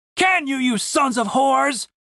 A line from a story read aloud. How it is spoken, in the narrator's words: shouted the man